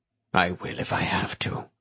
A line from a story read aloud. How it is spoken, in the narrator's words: the man said in a grim tone